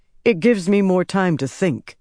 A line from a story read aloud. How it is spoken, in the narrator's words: he said